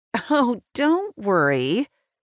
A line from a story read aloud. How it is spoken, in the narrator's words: she laughs